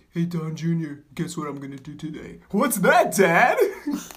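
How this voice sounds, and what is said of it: Poor imitation of another person's voice. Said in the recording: “That was a terrible Trump. ... What accent was that?”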